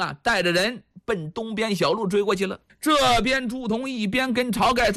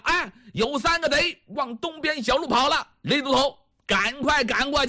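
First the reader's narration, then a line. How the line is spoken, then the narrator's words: Shouted. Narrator (Chinese): 朱仝啊 喊上了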